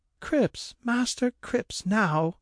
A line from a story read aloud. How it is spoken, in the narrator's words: cried Mary in a tremble